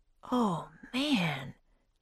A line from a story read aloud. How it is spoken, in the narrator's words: Jack said softly